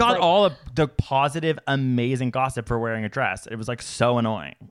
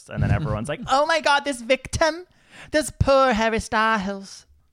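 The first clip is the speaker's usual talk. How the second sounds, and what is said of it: Put-on entertainment TV host accent. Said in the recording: “I love that accent. ... I literally pictured someone who hosts ET Canada.”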